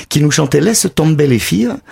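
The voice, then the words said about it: Put-on southern French accent. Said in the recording (French): “je le dis avec l'accent du Sud”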